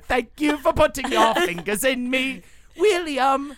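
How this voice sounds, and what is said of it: Put-on British accent. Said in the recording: “Just with a British accent”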